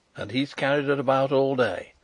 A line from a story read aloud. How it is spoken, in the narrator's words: I exclaimed